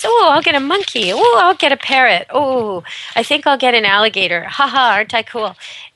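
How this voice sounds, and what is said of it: Mocking, unimpressed sarcastic tone. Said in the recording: “as you can tell from my tone, I'm not too impressed with that”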